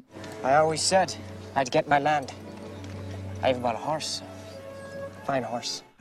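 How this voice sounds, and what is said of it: Tom Cruise's squeaky put-on Irish accent. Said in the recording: “sipping helium doesn't count as an Irish accent ... the dreadful Tom Cruise in The Dreadful Far and Away”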